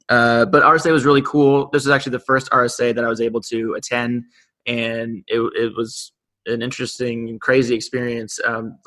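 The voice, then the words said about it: Slightly scratchy voice. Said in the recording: “my voice is somewhat scratchy a little bit, but lots of talking went on.”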